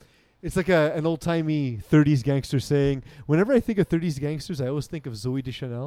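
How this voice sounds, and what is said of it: Usual voice. Nothing is said of it.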